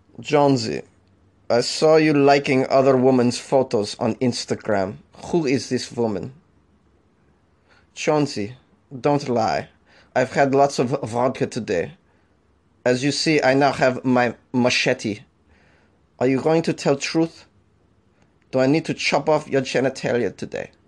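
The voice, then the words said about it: Put-on Russian-German accent. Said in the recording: “That was a combination Russian-German accent. I can't promise I got the best accents.”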